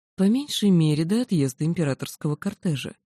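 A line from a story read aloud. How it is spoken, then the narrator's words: Soft, insinuating, menacing. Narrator (Russian): говорил Девернетти все так же мягко и вкрадчиво, но это не успокаивало, скорее пугало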